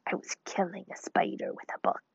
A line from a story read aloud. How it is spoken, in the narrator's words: he said in a grim whisper